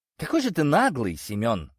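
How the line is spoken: Sighing woman. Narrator (Russian): вздохнула охотница

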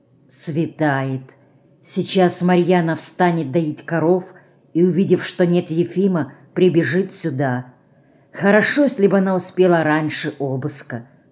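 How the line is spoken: Whisper. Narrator (Russian): прошептала Марина

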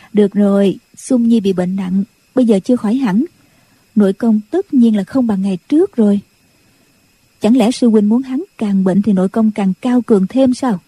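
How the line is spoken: Smiling. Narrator (Vietnamese): Nhạc Phu Nhân mỉm cười nói

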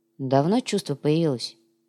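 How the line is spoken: Quiet question. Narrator (Russian): тихо спросил Виталич

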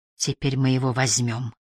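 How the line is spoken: Quiet. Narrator (Russian): тихо проговорила она

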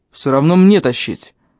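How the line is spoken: Big man grunting. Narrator (Russian): хмыкнул здоровяк

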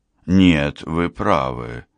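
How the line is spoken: Sighing. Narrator (Russian): Ангела вздохнула

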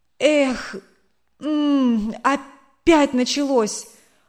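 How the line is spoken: Sudden groan. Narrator (Russian): Он неожиданно застонал

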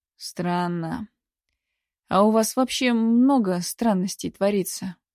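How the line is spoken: Sigh. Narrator (Russian): вздохнула

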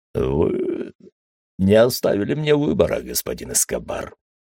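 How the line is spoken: Weary statement. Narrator (Russian): устало констатировал он

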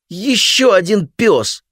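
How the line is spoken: Howling. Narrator (Russian): взвыл Микки

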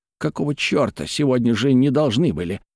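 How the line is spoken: Muttering. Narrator (Russian): бормочет он

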